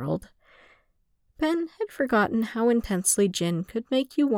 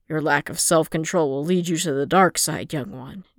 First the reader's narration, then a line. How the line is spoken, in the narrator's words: Jin growled